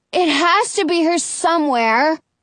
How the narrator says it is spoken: Jonah cries

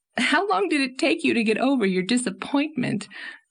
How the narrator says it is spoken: asked Anne, amid her laughter

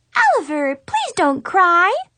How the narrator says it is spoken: Maxine pleaded in a squeaky voice

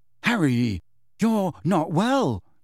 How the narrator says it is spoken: said shakily

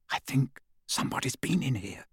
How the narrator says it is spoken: Hermione whispered

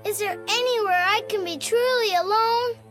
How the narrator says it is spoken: he said with a moan

